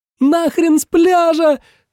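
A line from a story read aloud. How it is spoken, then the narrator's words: Very loud yell. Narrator (Russian): завопила Надя так громко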